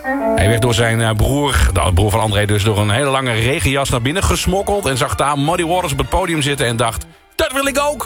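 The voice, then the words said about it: Put-on Amsterdam accent. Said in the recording (Dutch): “Het soort Amsterdams accent heb ik hier proberen na te doen. Ik hoop dat het overkwam.”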